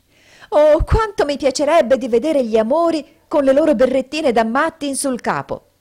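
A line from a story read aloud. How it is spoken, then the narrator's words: Exclaimed. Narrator (Italian): esclamò Memi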